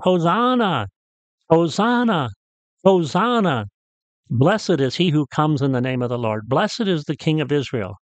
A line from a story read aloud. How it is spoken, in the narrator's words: the crowd begins to shout